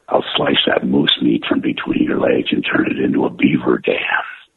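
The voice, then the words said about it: Wolverine character voice. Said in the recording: “do the voice ... I always wanted to do Wolverine ... Wolverine.”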